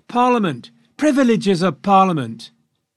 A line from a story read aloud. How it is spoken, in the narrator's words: But many more shouted